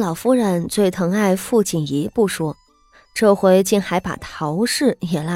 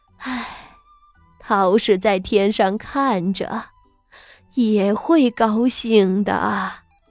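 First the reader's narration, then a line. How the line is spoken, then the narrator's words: Sighing. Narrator (Chinese): 叹了一口气道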